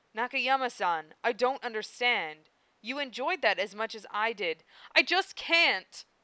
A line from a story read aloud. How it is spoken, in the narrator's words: exclaimed, breaking free at last